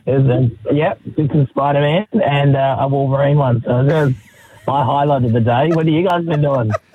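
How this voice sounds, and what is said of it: Hoarse, strained voice. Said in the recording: “So this is your laryngitis? ... this is my laryngitis. ... It does not sound like it's getting any better.”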